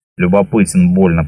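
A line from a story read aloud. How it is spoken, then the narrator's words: Old man's grumble. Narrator (Russian): пробурчал старик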